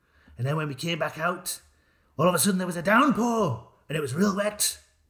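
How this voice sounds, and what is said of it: Poor attempt at Yorkshire accent. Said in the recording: “What is this accent? ... It was meant to be Yorkshire. ... It's terrible. ... Yorkshire is not one of your strong ones.”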